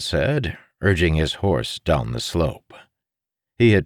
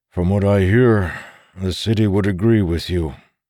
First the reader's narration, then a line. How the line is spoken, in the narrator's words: Lan sighed